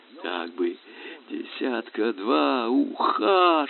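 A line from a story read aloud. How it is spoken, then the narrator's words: Excited anxious whisper. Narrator (Russian): шептал капитан с восторгом и тревогой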